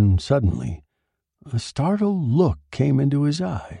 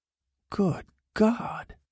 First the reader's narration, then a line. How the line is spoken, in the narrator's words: muttered